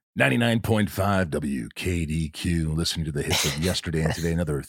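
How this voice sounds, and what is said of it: Radio DJ voice. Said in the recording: “I always thought DJ voice would be cool. I always wonder how they are at home, though.”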